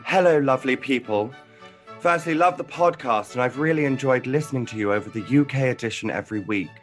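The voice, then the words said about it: Put-on British accent. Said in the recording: “I'm gonna read it in my most uh, British accent ... Oh, Perfect. Yes, yes, perfect.”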